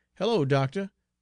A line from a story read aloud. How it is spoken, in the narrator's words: cried Josh